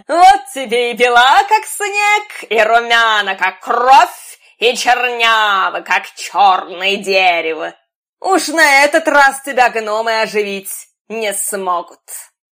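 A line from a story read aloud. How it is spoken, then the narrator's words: Stepmother's gloating laugh. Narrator (Russian): королева-мачеха посмотрела на нее ехидными глазами, громко рассмеялась и сказала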